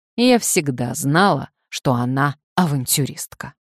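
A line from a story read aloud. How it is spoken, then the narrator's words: Angry. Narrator (Russian): барыня сердито сказала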